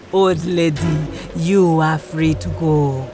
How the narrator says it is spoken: said, chuckling gleefully

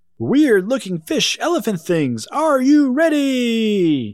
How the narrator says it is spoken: yelled Paige

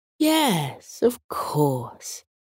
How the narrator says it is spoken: the older moon said gently

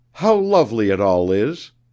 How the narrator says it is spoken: she exclaimed

